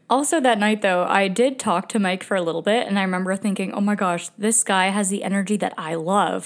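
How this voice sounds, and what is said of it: Breathless, out-of-breath speech. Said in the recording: “out of breath”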